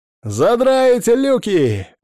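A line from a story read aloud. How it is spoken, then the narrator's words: Cheerful yell. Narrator (Russian): весело заорал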